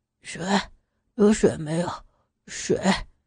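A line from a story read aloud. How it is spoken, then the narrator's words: Muttering. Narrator (Chinese): 刘元嘴里边嘟囔着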